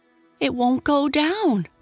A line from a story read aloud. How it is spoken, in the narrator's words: cried Johnny